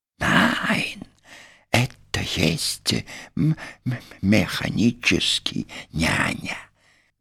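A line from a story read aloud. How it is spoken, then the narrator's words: Whispering. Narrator (Russian): Продолжал шептать Пин, бросая боязливые взгляды на дверь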